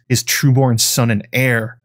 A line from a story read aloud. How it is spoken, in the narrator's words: Alice Rivers spat back